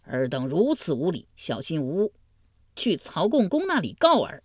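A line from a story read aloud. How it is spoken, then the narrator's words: Angry, flustered shouting. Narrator (Chinese): 重耳恼羞成怒，大声嚷道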